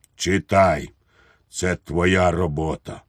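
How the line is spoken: Tragic voice. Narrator (Ukrainian): генерал сказав трагічним голосом

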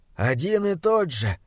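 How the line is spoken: Mysterious whisper. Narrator (Russian): загадочно прошептал его друг

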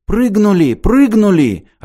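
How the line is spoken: Joyful exclamation. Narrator (Russian): радостно воскликнул Петенька

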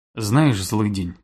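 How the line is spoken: Quiet. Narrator (Russian): тихо сообщил жмур

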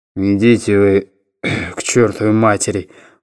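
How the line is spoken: Grumbled mutter. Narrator (Russian): буркнул Оспенский

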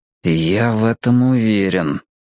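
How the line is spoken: Through clenched teeth. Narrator (Russian): процедил Мэтью сквозь стиснутые зубы

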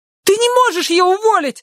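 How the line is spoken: Shrieking. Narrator (Russian): взвизгнула Гарриет

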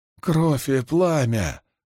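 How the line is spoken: Growl. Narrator (Russian): прорычала Дозин

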